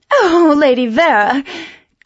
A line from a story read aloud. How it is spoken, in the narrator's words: cried poor Millicent flirtatiously